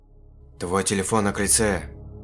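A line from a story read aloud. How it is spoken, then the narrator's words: Whisper. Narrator (Russian): Прошептала она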